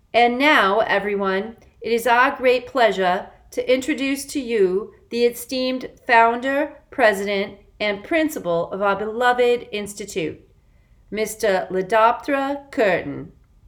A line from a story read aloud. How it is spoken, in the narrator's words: in a booming voice, Gilson announced